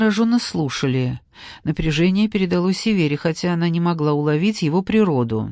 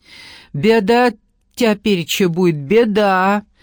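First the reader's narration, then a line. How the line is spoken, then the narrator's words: Frail old woman's loud wail. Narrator (Russian): громко заголосила сухонькая старушка, смешно выговаривая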